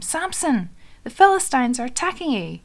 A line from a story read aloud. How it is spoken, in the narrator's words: She called out to him